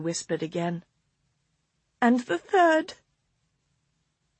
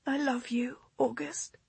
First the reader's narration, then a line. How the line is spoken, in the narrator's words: she whispered